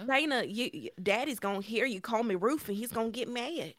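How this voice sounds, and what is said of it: Spot-on impression of the character Rufus. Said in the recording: “That's a really good impression of ... Spot on and hilarious”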